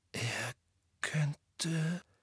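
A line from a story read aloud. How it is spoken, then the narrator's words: Hoarse whisper. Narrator (German): flüsterte Harry heiser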